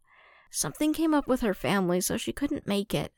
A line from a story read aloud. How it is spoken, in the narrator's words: Ahsoka murmured, expression turning crestfallen